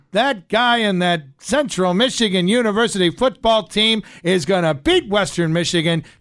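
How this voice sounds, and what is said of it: Nasal twangy Howard Cosell impression. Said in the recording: “Howard Cosell speaking of sports ... I think he's got more of a twang like ... Sometimes he has a little more of a nasally thing going on”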